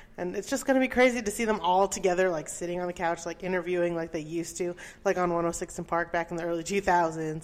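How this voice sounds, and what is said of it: Out of breath, excited. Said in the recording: “As you can tell, I'm out of breath now because I'm so yes, excited.”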